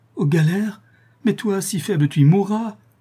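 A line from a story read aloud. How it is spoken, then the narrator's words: Woman crying out, sobbing. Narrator (French): s'écria la malheureuse femme en éclatant en sanglots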